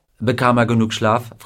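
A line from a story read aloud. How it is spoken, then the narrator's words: Plain. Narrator (German): fragte Gardner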